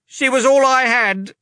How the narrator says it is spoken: Leta cried

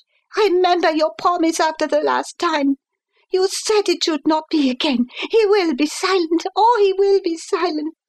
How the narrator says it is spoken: she cried in English

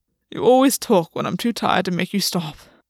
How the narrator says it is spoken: Gwen said sleepily

